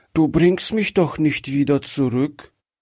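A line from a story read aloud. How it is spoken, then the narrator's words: Child, fearful, weak voice. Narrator (German): fragte das Kind ängstlich mit schwacher Stimme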